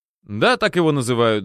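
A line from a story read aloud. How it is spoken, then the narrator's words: Laughing. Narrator (Russian): засмеялся и Саша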